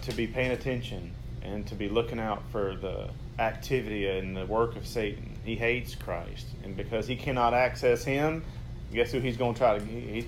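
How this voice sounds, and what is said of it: Southern American redneck accent. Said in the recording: “my redneck voice ... I try to hide my accent”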